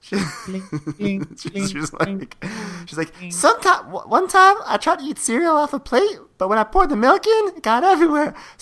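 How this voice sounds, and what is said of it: Exaggerated Audrey 2-like character voice. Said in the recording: “my Porsche accent is like crazy today... I'm doing some crazy Audrey 2 Little Shop of Horrors thing with her”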